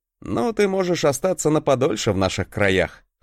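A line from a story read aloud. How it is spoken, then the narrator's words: Chuckling. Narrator (Russian): хохотнул я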